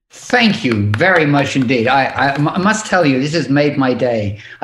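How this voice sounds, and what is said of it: British accent. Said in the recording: “he has a British accent.”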